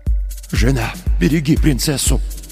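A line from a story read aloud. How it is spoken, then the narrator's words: Father whispering. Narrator (Russian): прошептал отец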